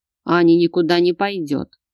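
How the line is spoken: Curt cutting reply. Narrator (Russian): отрезал Богдан

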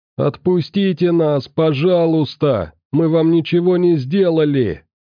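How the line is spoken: Captives shouting together. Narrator (Russian): кричали пленники

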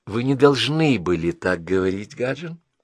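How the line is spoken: Soft. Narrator (Russian): сказала она мягко

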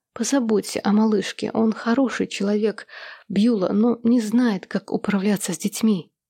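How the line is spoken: Dying woman's whispered plea. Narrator (Russian): На смертном одре она шепотом попросила старшую сестру

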